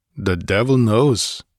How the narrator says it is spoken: he grunted

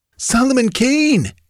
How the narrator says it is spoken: gasped the other bandit

